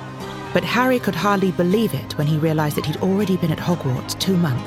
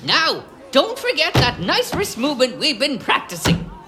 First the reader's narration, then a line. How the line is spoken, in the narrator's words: squeaked Professor Flitwick